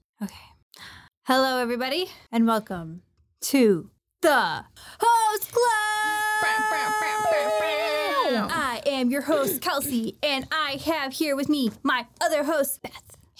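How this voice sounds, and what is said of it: Sportscaster-style announcer voice. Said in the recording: “you sounded like a sportscaster.”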